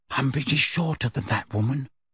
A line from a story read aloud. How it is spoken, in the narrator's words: she said quietly